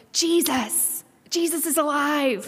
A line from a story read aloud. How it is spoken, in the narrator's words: one of my little friends joyfully sat straight up and exclaimed